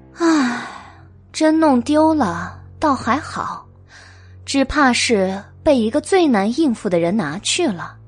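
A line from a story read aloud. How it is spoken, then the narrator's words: Sighing. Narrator (Chinese): 白姬叹了一口气道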